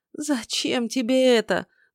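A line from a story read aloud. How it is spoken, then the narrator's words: Moaning. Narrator (Russian): буквально простонала эльфийка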